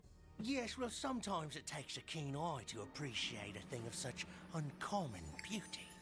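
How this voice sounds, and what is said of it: English accent. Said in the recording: “I never pictured English accent. ... I never pictured that kind of accent”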